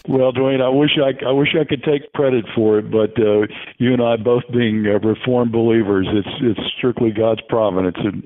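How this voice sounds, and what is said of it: Polished radio announcer voice. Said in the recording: “you can hear that radio voice ... has and that I covet”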